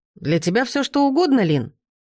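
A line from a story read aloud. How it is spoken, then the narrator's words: Exclaiming. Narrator (Russian): воскликнул он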